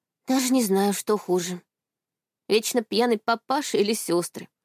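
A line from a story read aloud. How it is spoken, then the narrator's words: Sighing. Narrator (Russian): вздохнула Аня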